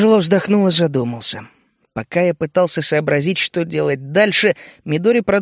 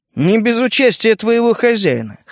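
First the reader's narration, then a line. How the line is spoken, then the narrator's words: Snorting. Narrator (Russian): хмыкнул я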